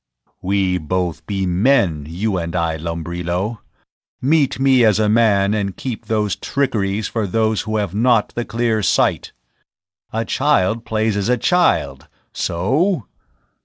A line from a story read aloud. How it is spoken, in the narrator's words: Tao's voice came in a rumble